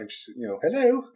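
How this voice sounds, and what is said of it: Poor put-on Welsh accent. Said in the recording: “that was my terrible Welsh accent there”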